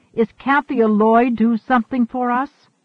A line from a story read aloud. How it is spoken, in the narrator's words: Aliat yelled